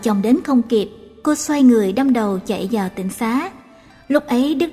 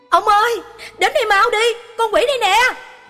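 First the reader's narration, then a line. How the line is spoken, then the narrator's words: Woman's alarmed cry. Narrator (Vietnamese): cô vợ lập tức la lên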